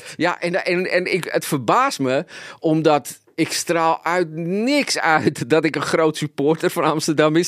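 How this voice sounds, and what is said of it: Strong Amsterdam Dutch accent. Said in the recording (Dutch): “je accent eh, is wel on point ... ik ga hiermee sterven met dat accent ... een 020er”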